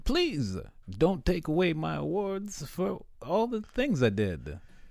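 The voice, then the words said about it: Attempted Bill Cosby impression. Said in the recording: “do a Bill Cosby impression ... I ain't good at doing a Bill Cosby.”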